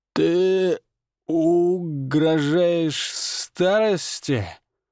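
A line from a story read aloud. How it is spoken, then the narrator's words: Hoarse, strained. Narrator (Russian): выдавил он хрипло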